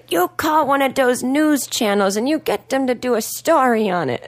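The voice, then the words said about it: Imitated working-class Boston accent. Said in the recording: “how your dad talks? ... That's how I imitate him and how my whole family now imitates him. It's like a working class Boston accent, but it sounds ... Irish. ... It sounded vaguely Slavic to me. ... he has a weird accent.”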